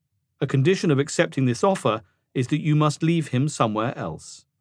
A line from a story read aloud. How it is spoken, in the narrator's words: Rim said flatly